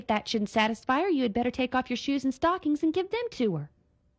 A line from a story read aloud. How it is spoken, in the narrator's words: intoned Sadie